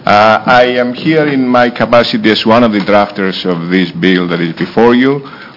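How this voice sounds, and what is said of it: Foreign accent in English. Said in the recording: “get used to my accent”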